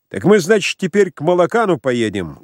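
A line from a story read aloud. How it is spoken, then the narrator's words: Loud. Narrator (Russian): громко говорил Кузьмичев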